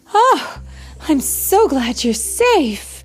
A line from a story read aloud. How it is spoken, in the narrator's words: cried Bambi's mother